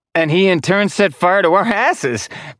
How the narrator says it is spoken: Paris said with a jovial laugh

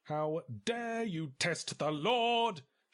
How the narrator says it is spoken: shrieked Barry

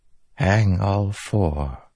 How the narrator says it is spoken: Taravangian whispered

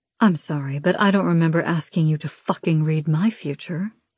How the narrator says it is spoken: the bargainer says calmly

